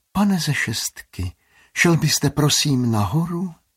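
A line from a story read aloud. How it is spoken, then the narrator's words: Secretive, excited whisper. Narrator (Czech): zašeptá, jako by to bylo tajemství nebo nějaká senzační novinka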